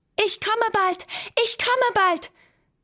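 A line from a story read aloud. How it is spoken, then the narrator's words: Calling out. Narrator (German): rief er dem Mond zu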